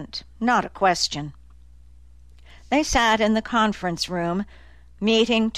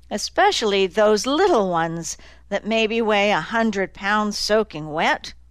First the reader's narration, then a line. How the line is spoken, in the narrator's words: Annie remarked dryly